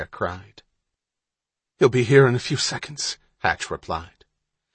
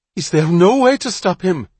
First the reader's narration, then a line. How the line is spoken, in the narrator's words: Bonter cried